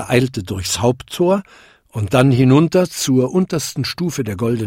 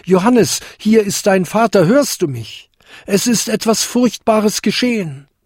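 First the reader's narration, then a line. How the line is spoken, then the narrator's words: Calling out. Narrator (German): rief er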